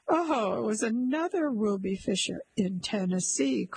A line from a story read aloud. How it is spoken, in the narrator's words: cried her husband